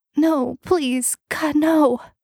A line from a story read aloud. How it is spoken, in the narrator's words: The girl was crying and whimpering